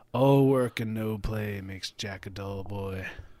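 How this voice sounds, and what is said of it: Raspy breathy Jack Nicholson impression. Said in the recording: “do that voice ... Jack Nicholson ... the breathiness or something, or like the raspy breathy”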